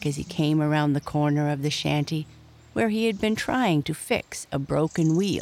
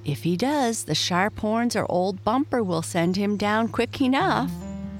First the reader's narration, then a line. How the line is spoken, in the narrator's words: laughed Mike